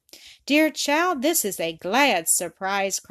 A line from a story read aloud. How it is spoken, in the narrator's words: cried Miss Stanhope